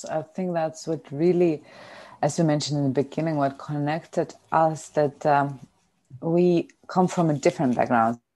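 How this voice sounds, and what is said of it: Lithuanian-accented English. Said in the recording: “our accents, and probably not the perfect English, because we come from different backgrounds. We come from Lithuania”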